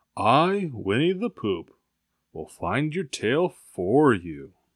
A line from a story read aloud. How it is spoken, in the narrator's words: he said solemnly